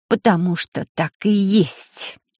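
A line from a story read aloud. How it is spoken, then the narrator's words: Quiet, through gritted teeth. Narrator (Russian): тихо процедила Вики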